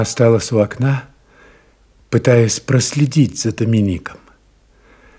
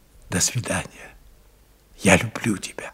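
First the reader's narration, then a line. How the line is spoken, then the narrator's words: Whisper. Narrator (Russian): Франсуаза прошептала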